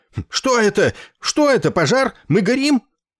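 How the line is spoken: Frightened shouting. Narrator (Russian): Одноногий пациент испуганно выкрикивая

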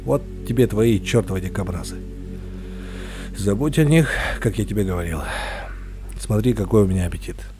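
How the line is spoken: Monotone lifeless voice. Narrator (Russian): Произнес он монотонным, неживым голосом, без тени юмора или злорадства

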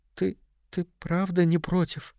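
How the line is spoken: Barely audible question. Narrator (Russian): спросила она, еле слышно

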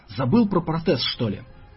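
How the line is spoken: Hoarse slobbering wheeze. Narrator (Russian): Рабочий хрипел и пускал слюну

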